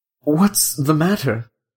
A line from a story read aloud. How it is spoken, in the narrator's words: said Wedderburn, opening his eyes feebly